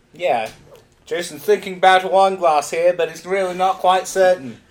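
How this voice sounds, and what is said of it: Put-on British commentator accent. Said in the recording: “Why do you have a British accent? Because you have to be a commentator? ... It's my British accent that gives me power.”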